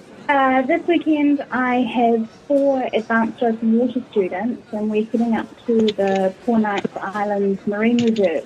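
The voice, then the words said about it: New Zealand accent. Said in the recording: “you have a lovely New Zealand accent.”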